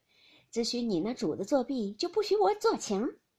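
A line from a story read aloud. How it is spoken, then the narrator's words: Laughing. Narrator (Chinese): 尤氏笑道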